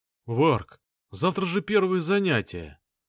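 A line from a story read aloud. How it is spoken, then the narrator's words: Moaned. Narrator (Russian): простонал Стас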